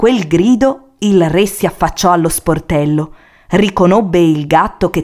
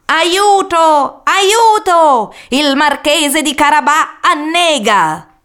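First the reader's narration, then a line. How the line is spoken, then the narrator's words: Cat shouting at full voice. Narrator (Italian): il gatto iniziò a gridare con quanta voce aveva in gola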